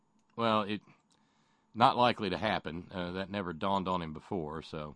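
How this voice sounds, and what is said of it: Usual voice. Nothing is said of it.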